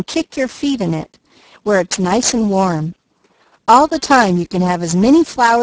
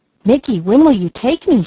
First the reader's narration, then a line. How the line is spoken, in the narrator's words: she asked eagerly